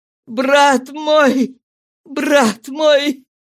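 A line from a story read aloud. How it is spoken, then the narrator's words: Sobbing repetition. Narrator (Russian): он, рыдая, повторял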